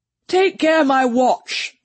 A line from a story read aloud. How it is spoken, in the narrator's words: cried Mr